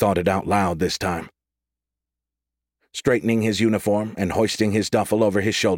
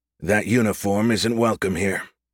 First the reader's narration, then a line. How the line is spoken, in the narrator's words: he said flatly